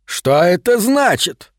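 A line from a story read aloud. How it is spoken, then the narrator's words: Shouted. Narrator (Russian): крикнул он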